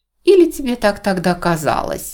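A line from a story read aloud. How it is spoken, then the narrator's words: Laughing, woman. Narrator (Russian): рассмеялась миссис Эдж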